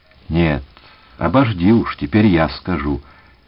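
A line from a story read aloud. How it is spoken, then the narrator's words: Gentle interruption. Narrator (Russian): мягко перебил Левинсон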